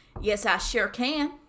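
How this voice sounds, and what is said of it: Put-on country Western accent. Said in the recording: “a good Western accent... country Western... Can you do a good country accent?”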